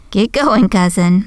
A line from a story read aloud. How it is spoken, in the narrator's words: Marie laughed